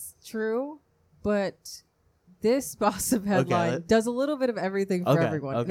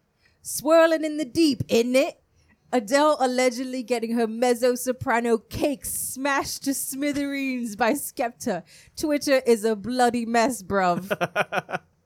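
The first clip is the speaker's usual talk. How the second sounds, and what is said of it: Put-on English accent. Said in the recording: “I'm going to read it in my best English accent.”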